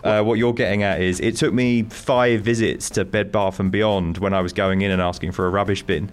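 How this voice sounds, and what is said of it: Foreign accent. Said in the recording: “your accent got in the way of just doing a couple of, like, normal things.”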